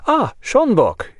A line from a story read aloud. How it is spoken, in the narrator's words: exclaimed joyfully